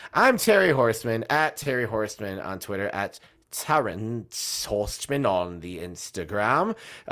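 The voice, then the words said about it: Put-on accent, getting worse. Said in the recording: “that accent's getting worse. I need to stop doing it.”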